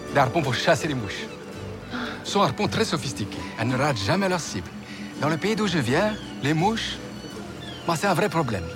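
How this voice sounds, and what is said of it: Slight Romanian accent. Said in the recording (French): “il me semblait bien que vous aviez un léger accent. ... De Roumanie”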